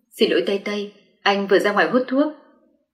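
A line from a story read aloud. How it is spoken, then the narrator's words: Soft. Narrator (Vietnamese): Anh ... khẽ nói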